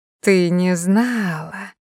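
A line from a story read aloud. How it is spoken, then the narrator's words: Gloating purr. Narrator (Russian): промурлыкала Дита, наслаждаясь ее замешательством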